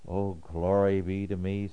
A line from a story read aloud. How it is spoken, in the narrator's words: sighs he